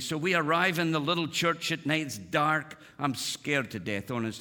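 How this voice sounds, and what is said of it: Noticeable foreign accent, softened. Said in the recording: “so you get my accent. Used to be a little thicker then, but I soften it for you guys... I love your accent”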